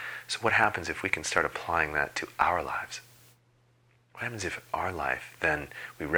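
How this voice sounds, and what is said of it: Usual voice. Nothing is said of it.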